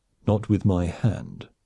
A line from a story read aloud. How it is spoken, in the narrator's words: Surik said coldly